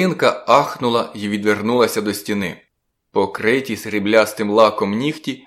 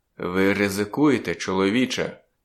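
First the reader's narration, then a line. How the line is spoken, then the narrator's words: Quiet. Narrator (Ukrainian): тихо проказав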